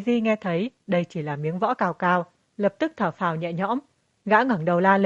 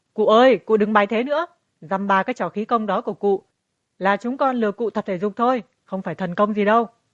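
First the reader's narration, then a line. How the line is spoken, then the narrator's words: Urgent alarmed shout. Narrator (Vietnamese): Nhậm Mã thấy không ổn, vội vàng thét lớn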